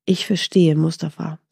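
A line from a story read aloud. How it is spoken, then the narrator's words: Plain. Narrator (German): sagte Mustafa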